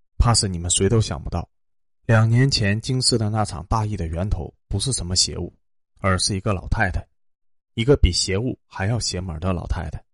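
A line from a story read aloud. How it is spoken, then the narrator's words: Long sigh. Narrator (Chinese): 薛子言长叹一声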